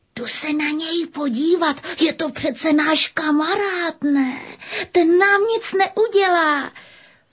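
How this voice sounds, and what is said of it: Whispering. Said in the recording (Czech): “zašeptal.”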